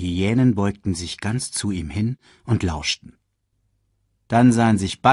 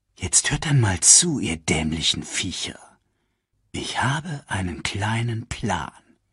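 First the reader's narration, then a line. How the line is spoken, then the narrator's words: Whispered. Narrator (German): flüsterte Scar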